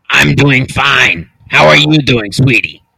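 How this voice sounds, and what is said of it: Imitates another person's voice. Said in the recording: “Guess Who's Doing Brenda Impression”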